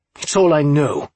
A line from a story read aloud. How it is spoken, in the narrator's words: spat